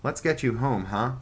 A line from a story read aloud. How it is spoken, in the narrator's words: Ronnie Ryan said